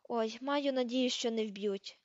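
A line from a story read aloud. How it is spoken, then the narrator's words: Groaning. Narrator (Ukrainian): простогнала Герміона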